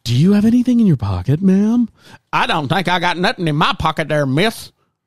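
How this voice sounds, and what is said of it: Put-on Southern American accent. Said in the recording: “I don't know why she had a Southern accent just now.”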